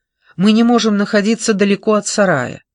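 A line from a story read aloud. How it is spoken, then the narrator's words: Irritated. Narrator (Russian): раздраженно произнес Крейг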